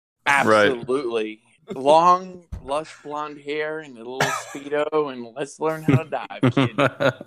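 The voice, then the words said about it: Put-on American accent. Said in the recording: “imitating an American accent.”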